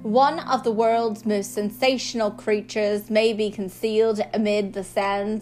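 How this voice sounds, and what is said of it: Put-on British accent. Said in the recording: “should I say it in a British accent?”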